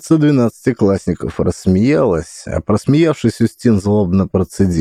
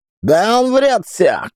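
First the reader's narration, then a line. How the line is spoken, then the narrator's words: Shout. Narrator (Russian): крикнул Руслан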